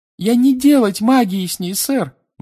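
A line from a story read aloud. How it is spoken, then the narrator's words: Shrill squeal. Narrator (Russian): взвизгнула Винки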